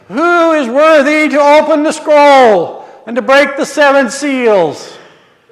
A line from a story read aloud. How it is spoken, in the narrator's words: a mighty angel who called out in a loud voice, saying